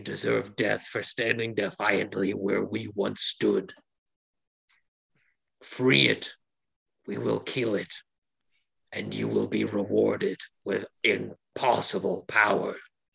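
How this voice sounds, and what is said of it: Evil monster character voice. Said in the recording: “Should I do an even more evil voice?”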